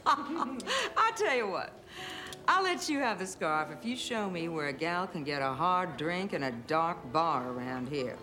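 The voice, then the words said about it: Southern American accent. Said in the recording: “Don't let the southern accent fool you.”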